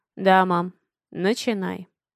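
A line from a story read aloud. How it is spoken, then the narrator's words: Calm. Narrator (Russian): спокойно кивает Алекс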